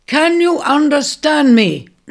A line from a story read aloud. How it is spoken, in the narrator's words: he bellowed